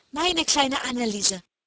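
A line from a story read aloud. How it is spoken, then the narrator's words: Called out. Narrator (German): rief das andere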